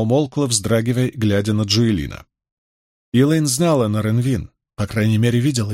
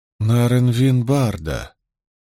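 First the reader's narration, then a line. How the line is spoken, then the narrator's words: Grim repetition. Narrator (Russian): мрачно повторила Найниф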